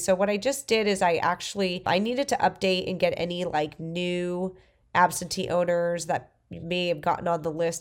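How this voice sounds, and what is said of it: Stuffy, congested voice. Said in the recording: “I sound so stuffy ... I have a flu”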